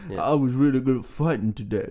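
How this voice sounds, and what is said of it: Imitates another person's voice. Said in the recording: “I'll do it in the accent ... Stallone's a sexy fella”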